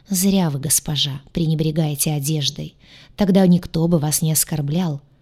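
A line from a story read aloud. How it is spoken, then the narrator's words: Deep bass voice. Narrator (Russian): пробасила арчанка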